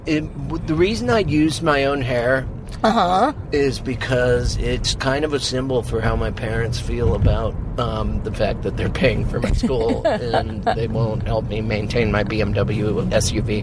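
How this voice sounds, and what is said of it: Impression of a trust-fund student. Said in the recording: “that was my impression of a... ... Of someone very specific ... a very specific from Vermont trust fund student in Montana”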